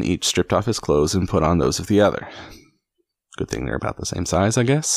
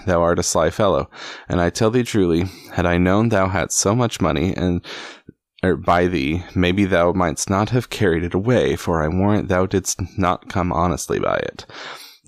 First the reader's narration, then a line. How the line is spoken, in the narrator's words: quoth Robin, laughing